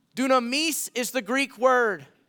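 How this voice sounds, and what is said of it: Word said in Spanish accent. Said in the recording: “I said that with a Spanish accent”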